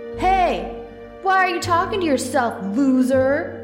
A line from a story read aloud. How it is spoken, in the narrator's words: bully yelled angrily